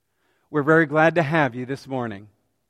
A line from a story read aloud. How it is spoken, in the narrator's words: said the driver